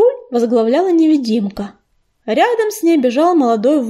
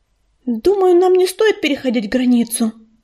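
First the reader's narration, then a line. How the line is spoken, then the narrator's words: Frightened babble. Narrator (Russian): испуганно пролепетала Листвечка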